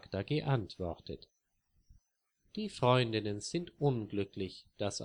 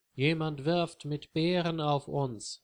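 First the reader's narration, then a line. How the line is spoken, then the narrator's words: Plain. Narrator (German): sagt Marie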